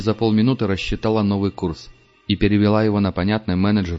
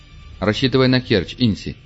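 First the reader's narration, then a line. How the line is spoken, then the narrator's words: Calm command. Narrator (Russian): спокойно велел Пард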